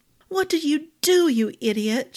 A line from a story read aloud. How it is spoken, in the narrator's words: she cried